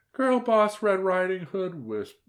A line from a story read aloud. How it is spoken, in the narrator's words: whimpered the aunt